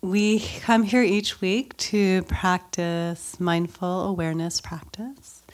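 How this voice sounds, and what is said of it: Slightly nasal, congested voice. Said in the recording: “my voice sounds funny, I have a cold ... my normal meditation voice is going to be slightly nasally”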